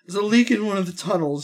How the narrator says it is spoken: he whines

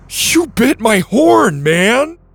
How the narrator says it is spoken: The triceratops in horror shouted

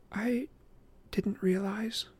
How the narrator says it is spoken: she murmured

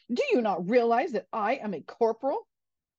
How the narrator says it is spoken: the corporal angrily replied

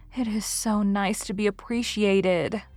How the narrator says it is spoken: sighed Anne rapturously to Marilla

